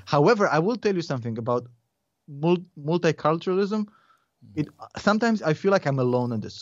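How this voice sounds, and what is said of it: Foreign, non-American accent. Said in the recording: “they freak out because I sound like a foreigner ... I can't sound like proper ... I'm not going to try to sound more American than I am ... the accent stayed”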